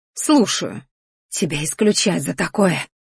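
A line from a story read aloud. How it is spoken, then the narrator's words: Hoarse wheeze. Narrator (Russian): захрипела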